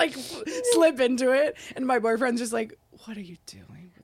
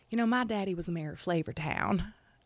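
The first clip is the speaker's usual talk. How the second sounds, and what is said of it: Good put-on Southern US accent. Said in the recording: “you're so good at it. ... That's a really good Southern accent.”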